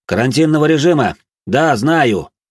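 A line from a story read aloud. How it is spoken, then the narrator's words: Loud statement. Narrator (Russian): громко произнес я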